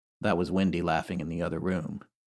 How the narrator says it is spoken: Jim calmly say

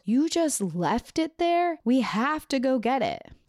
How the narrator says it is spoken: he freaked out and yelled

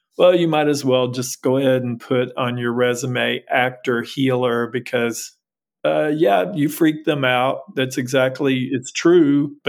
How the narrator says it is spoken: just laughing, and said

